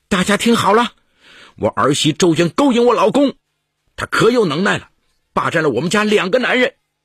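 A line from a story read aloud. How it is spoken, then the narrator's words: Loud shouting. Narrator (Chinese): 孟玉秀大声叫嚷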